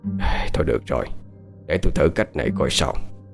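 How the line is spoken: Reluctant sighing, quiet. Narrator (Vietnamese): Không đành lòng, cụ Khảm thở dài nói nhỏ

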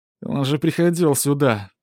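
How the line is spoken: Moaning. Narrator (Russian): простонал Ивон

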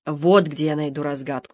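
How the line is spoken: Muttering. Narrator (Russian): бормотал он

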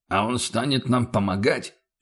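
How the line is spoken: Dismissive snort. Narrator (Russian): пренебрежительно хмыкнул Феликс

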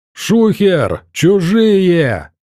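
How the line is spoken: Yelling. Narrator (Russian): заорал косматый

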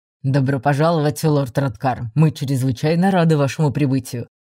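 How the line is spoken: Deep voice, smiling. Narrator (Russian): пробасил он, широко улыбаясь

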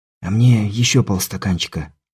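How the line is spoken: Whisper. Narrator (Russian): шепотом произнес Каспер

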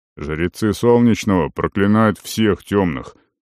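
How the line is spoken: Snort. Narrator (Russian): Керума хмыкнул

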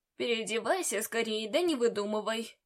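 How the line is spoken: Grumbling. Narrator (Russian): проворчал он

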